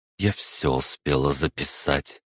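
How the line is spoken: Through gritted teeth. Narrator (Russian): процедила Анна

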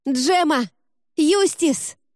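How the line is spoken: Yelling. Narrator (Russian): Я заорала

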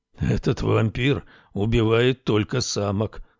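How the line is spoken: Creature's grumble. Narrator (Russian): пробурчал полуночник

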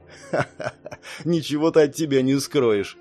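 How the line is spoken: Chuckling. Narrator (Russian): хохотнул

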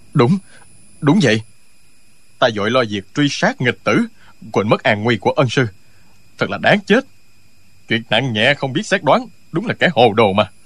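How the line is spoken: Trembling, fearful voice. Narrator (Vietnamese): Tống Diễn Kiều toát mồ hôi lạnh, giọng run run nói

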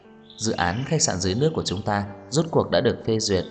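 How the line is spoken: Smiling. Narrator (Vietnamese): Cô mỉm cười nói

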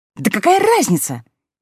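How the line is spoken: Exclaiming. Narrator (Russian): воскликнула Алиса

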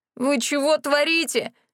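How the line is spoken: Wailing in grief. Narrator (Russian): взвыл Рэнди ещё горестней

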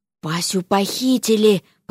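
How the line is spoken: Frightened whisper. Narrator (Russian): прошептал Алёша, побледнев

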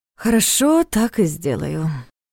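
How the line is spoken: Sighing. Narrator (Russian): вздохнул он

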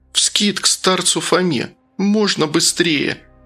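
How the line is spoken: Tearful asking voice. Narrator (Russian): плачущим голосом спросила Настя

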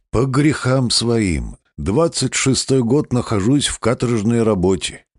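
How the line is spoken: Sigh, then speaking. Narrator (Russian): Он вздохнул и сказал

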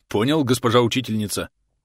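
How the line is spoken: Young man barking. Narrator (Russian): рявкнул парень

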